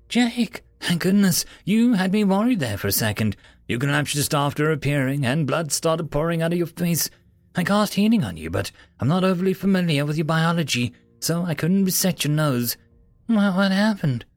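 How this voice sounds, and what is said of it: Panicked character voice. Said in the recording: “in a panicked voice.”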